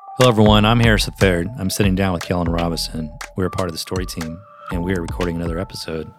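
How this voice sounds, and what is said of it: Flat monotone delivery. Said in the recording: “Why do you sound so monotone?”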